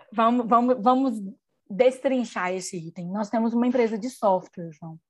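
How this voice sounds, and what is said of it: Mineiro Brazilian Portuguese accent. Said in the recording (Portuguese): “Ai, que delícia ouvir esse sotaque. ... Em Minas é deixar explicadinho ... Ninguém fala o, o trem, cadinho.”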